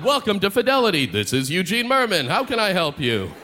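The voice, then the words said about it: Announcer-style movie phone voice. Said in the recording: “I'd answer them in my movie phone voice ... oh, another machine”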